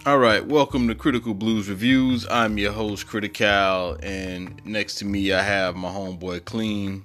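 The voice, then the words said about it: Congested voice from a cold. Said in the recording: “I have a cold right now, so bear with it”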